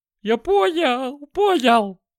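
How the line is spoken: Howl. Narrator (Russian): взвыл

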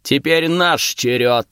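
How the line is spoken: Barking roar. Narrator (Russian): рявкнул Хёвдинг

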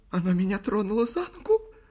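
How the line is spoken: Whimpering child. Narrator (Russian): проскулила крошка

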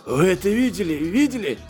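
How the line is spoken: Hoarse wheeze. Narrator (Russian): прохрипел Гриффис

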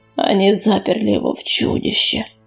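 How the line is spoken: Hoarse, disbelieving. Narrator (Russian): хрипло повторил Сераус, как будто никак не мог до конца поверить в случившееся

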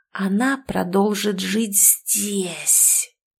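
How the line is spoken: Hissing. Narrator (Russian): прошипела Нина

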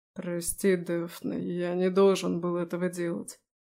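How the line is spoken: Hoarse. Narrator (Russian): хрипло проговорила Аласдер

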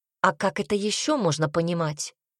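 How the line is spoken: Angry reply. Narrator (Russian): зло ответил Себастьян

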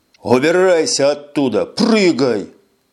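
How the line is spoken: Barked. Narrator (Russian): рявкнул Эш

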